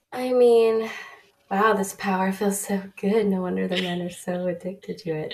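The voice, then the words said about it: Sick-sounding, slightly off voice. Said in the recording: “I have like a slight cold that is just lingering forever. So if I sound drastically different, that is why ... why my voice is weird”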